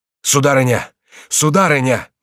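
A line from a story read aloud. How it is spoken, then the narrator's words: Frightened cry. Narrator (Russian): вскричал Реми испуганным голосом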